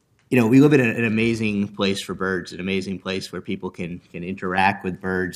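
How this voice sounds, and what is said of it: Hoarse, failing voice. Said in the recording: “my voice is going this morning”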